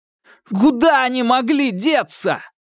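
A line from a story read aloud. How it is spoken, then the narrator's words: High cracking exclamation. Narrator (Russian): воскликнул он срывающимся высоким голосом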